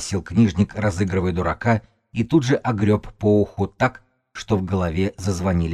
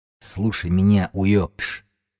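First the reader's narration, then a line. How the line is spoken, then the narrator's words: Rodent's hiss. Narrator (Russian): прошипел грызун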